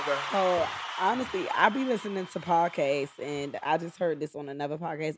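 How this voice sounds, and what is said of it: Charlotte, North Carolina accent. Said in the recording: “Where's that accent from? ... I'm from Charlotte, North Carolina.”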